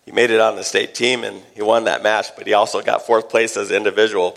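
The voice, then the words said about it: Hoarse, strained voice. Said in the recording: “I'm sore for screaming for my son this weekend... that's why I lose my voice. Screaming.”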